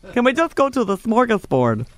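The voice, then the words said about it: Poor attempt at Swedish accent. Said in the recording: “What accent was that? ... I was trying to do Swedish, but ... that was a mess.”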